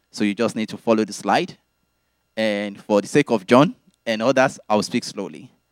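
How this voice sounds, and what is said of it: Speaks with a noticeable accent. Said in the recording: “those who are familiar with my accent”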